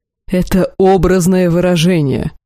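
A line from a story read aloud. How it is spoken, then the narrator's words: Sudden growl. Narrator (Russian): прорычал вдруг господин Илахар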